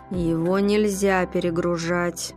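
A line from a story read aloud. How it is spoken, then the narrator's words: Through gritted teeth. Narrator (Russian): процедил Ройтер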